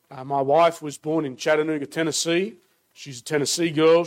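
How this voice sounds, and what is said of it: Australian accent. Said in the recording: “as you can tell from my accent, born and raised in Australia”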